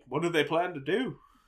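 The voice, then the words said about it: Poor attempt at British accent. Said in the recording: “Oh God, that was an awful accent. ... that English. was nothing.”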